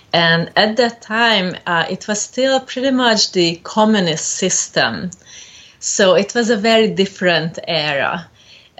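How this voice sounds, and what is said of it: Hungarian-accented English. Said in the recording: “You don't have an American accent... I'm originally from Hungary”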